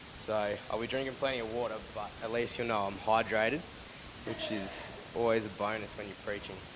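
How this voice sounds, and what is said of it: Sick-sounding voice. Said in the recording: “sorry about my voice. I've been a bit sick.”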